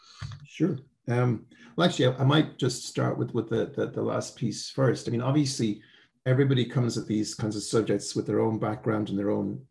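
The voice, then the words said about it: Slight Irish accent. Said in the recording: “a slight Irish accent”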